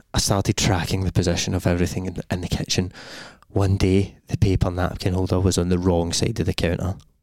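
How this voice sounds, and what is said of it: Scary storytelling voice. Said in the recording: “You start a scary voice.”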